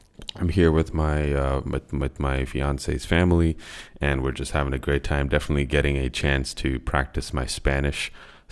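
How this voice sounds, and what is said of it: Sick-sounding voice. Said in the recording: “Unfortunately, I've been sick. You guys might be able to actually hear it in my voice.”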